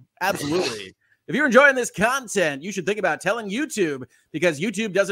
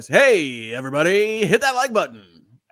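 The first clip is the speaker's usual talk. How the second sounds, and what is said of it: Morning radio DJ voice. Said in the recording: “We can do the full morning radio voice.”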